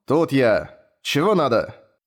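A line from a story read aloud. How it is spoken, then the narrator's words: Distant shout from kitchen. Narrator (Russian): крикнул парень из кухни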